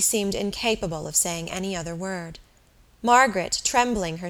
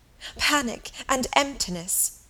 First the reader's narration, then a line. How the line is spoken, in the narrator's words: sobbed Helen